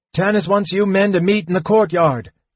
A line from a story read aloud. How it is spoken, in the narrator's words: he cried